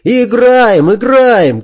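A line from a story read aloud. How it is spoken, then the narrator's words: Shouting. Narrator (Russian): кричал Фергюс, хлопая в ладоши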